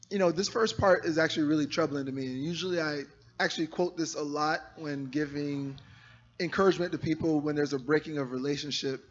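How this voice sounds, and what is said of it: Hoarse, strained voice. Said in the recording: “my voice is gone ... this is not my normal voice”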